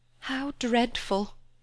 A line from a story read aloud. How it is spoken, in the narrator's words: she murmured